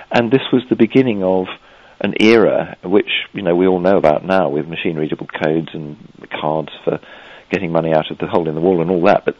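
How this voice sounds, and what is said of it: English accent. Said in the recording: “you're from a place called England... I suspect my accent gives me away.”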